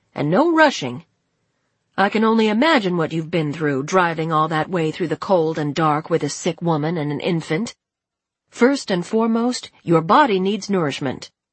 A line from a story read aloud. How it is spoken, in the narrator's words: said May sternly